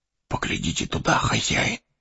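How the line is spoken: Whispered. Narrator (Russian): шепнул он

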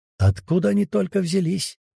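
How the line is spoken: Quiet question to himself. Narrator (Russian): тихо спросил он сам у себя

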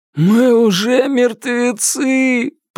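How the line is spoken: Moaning. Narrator (Russian): простонал кто-то

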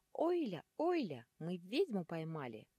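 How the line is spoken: Squeaky small creatures. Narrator (Russian): пищала мелкая демоническая живность

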